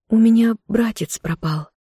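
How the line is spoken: Barely audible squeak. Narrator (Russian): Любомира пискнула едва слышно

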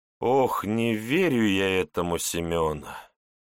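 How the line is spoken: Heavy sigh, doubtful. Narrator (Russian): Тяжело вздохнул директор

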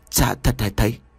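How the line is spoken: Stunned, trembling stammer. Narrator (Vietnamese): Quang liền ngỡ người, đôi chân run rẩy, miệng lắp bắp nói

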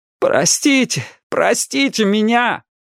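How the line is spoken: Commanding female shout. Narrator (Russian): Али закричала самым своим командирским голосом

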